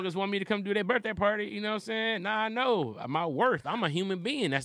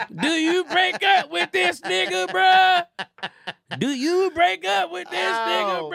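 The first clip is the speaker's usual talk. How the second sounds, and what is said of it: Imitates another person's voice. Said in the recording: “impersonator to do it. If I was Boosie”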